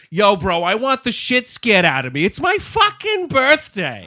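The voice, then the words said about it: Thick put-on New England accent. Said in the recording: “the thickest New England accent I have fucking heard”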